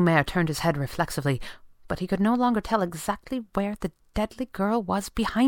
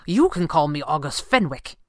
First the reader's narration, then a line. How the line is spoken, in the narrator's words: snapped